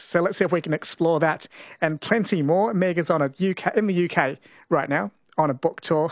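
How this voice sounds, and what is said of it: Faded New Zealand accent. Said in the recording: “an accent from home ... you can still pick the New Zealand accent. I thought I'd lost it after 23 years ... I thought it sounded Australian.”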